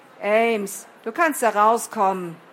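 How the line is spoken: Demon calling out, laughing loudly. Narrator (German): rief der Dämon, noch immer laut lachend in den Wald herein

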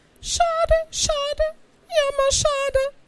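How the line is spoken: Regretful squeak. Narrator (German): piepste bedauernd

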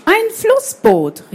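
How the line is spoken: Called out. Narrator (German): rief Hugo

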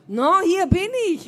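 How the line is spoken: Call. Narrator (German): rief sie

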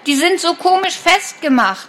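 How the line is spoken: Desperate call. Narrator (German): ruft er verzweifelt

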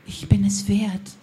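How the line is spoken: Whisper. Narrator (German): flüsterte

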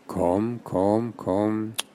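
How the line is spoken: Gentle coaxing voice. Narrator (German): Joch schnalzte mit der Zunge und sprach mit sanfter Stimme

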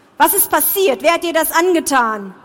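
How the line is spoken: Angry shout. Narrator (German): rief er zornig

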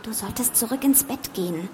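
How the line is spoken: Whispered. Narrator (German): flüsterte sie

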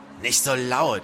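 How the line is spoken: Hissed. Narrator (German): zischte Crowley

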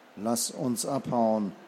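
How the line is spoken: Murmur. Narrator (German): murmelte Jackson

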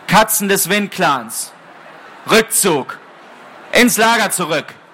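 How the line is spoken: Loud yowl. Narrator (German): Kurzstern hob den Kopf und jaulte laut

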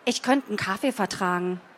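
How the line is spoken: Plain. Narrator (German): sagte sie

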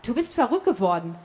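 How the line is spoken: Agitated interruption. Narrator (German): fuhr Mischa nun aufgeregt dazwischen

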